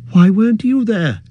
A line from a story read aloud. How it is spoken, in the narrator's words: cried Frodo